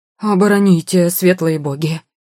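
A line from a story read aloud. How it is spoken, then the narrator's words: Frightened howl. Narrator (Russian): Взвыл дядька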